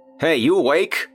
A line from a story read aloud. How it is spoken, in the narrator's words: Colin shouted